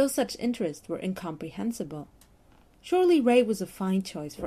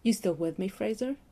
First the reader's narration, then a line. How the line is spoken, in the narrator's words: asked Ray in a quizzical tone